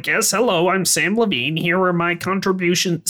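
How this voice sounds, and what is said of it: Imitates another person's funny, silly voice. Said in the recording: “his voice pretty much just sounds like that ... he does just talk like this ... you've got a funny voice ... a guy on the lot who sounds silly”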